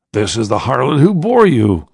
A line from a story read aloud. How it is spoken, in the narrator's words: laughed the Roman